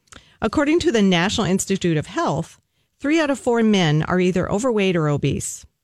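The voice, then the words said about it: American Southern accent. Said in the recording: “my Southern accent”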